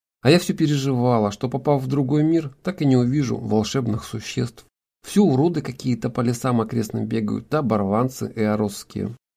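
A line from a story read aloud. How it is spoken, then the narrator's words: Sighing. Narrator (Russian): вздохнув, сказала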